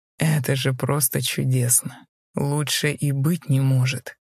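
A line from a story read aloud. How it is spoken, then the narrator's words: Uncontrollable malicious laughter. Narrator (Russian): Злобно засмеялся, уже не в силах сдерживаться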